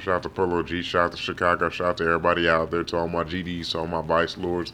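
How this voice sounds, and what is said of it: Naturally deep, slightly tired voice. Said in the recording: “is your voice deeper when you first wake up? ... This is naturally how my voice sounds. I'm a little tired right now, but this is naturally just how I sound.”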